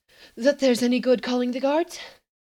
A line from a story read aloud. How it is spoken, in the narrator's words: gasped